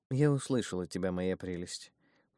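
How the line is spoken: Cooing velvety voice. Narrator (Russian): проворковала она своим фирменным бархатным тоном

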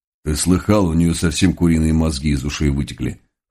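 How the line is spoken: Chuckling cabman. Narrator (Russian): хохотнул вставший рядом вороной кэбмен

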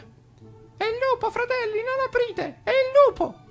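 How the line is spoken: Frightened young goat's voice. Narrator (Italian): disse il capretto con voce spaventata

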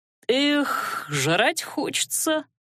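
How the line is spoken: Sighed. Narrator (Russian): вздохнул Адар

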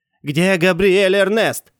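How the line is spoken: Shouting from the doorway. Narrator (Russian): заорал с порога

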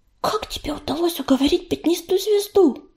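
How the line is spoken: Whispered question. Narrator (Russian): шепотом спросила она

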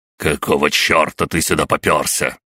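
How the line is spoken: Emperor barking. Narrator (Russian): рявкнул император

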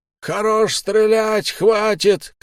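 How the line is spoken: Shouted from above. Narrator (Russian): крикнули сверху

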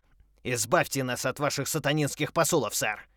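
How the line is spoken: Roared. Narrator (Russian): взревел Ферсон

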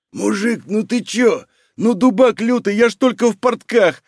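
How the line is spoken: Whimpering young man. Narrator (Russian): хныкал молодой человек

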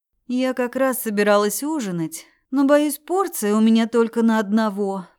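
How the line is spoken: Tired. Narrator (Russian): проговорила устало

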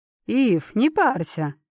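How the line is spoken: Calm. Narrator (Russian): спокойно говорит шаман

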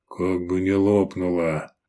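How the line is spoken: Muttered. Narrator (Russian): пробормотал Даврон

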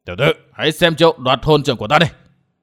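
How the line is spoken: Old man roaring. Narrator (Vietnamese): Lão hộ pháp gầm lên

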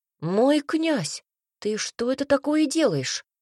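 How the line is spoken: Exclaiming. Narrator (Russian): воскликнул Цинта

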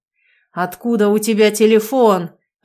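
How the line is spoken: Fierce growling. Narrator (Russian): рычал

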